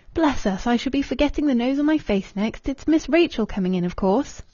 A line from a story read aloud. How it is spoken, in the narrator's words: she gave a short laugh, and said in her ordinary tone